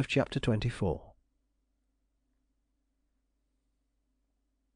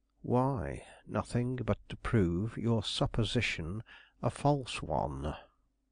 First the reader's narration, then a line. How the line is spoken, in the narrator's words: Gryce quietly responded